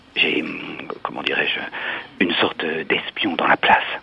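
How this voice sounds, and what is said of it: Whispering. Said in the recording (French): “pourquoi chuchotez-vous ?”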